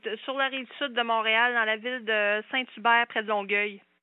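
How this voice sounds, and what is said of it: Slight Québécois French accent. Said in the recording (French): “Oula, j'ai un petit accent.”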